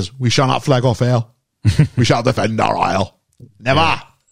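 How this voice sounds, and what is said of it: Imitates another person's voice. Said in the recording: “That was a different accent.”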